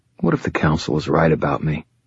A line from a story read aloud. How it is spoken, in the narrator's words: I asked Murphy quietly